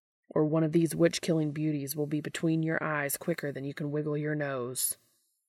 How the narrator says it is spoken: growls

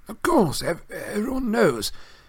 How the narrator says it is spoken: muttered Mr

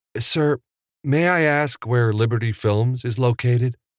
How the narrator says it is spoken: He asked in his nicest voice

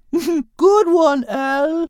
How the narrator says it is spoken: exclaimed Isabella

